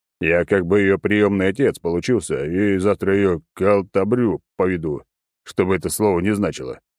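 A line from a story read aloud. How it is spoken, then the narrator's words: Deep booming drone. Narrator (Russian): прогудел разрушитель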